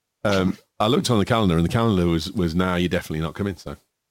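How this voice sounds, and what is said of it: Strong Yorkshire accent. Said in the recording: “Strug Yorkshire accent”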